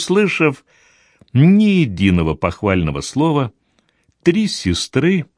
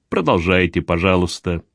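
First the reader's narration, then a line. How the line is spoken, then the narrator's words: Muttered request. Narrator (Russian): попросил клезмер, что-то бормоча себе под нос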